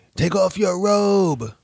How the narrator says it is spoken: someone yelled

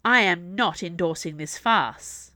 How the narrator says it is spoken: Meta snapped back, not bothering to keep her voice down

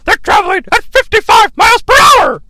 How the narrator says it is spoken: Tony Schiavone's yelling

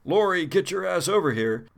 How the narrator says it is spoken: you yell out

